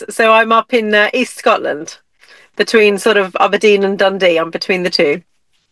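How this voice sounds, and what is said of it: Scottish accent. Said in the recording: “I can tell by your Scottish accent. ... Yes, I'm very Scottish.”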